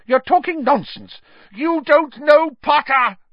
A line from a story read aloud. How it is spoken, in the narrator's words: shrieked Snape